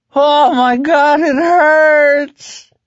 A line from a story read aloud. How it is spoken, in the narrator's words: Hector Drogon screamed from above them